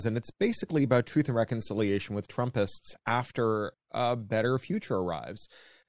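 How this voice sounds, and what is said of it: Canadian accent. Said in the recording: “as you can hear from my accent, I'm a Canadian.”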